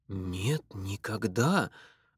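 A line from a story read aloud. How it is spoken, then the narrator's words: Stunned mumble. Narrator (Russian): ошеломленно пробормотал Роджер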